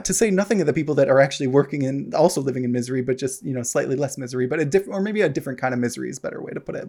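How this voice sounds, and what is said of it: American accent. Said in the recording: “obviously was from there you can tell from the accent no i'm not canadian”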